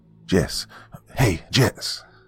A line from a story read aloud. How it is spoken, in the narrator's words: I hissed